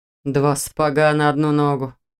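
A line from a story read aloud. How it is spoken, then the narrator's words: Grumbling. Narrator (Russian): проворчал Дементьев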